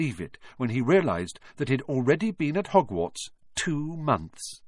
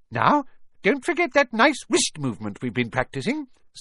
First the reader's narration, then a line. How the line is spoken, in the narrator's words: squeaked Professor Flitwick